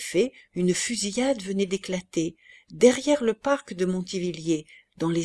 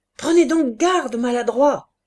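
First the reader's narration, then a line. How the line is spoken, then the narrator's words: Shouting. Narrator (French): cria le lieutenant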